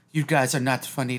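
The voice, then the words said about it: Poor put-on German accent. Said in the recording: “This is a horrible German accent, whatever the fuck I'm trying to say. ... Maybe Russian, but.”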